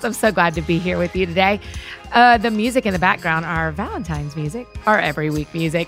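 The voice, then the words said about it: Voice slightly affected by illness. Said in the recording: “forgive my voice a little bit as I am a little bit under the weather”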